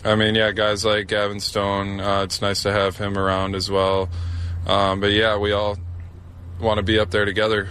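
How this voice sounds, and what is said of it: Midwestern American accent. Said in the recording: “that accent, it's not Canadian. It's a Midwest accent.”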